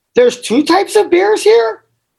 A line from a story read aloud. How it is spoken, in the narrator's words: asked nervously